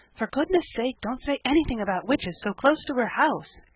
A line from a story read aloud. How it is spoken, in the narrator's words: gasped Felicity